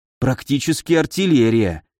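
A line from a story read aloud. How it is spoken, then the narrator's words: Envious sigh. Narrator (Russian): с явно слышимой завистью в голосе вздохнул Михаил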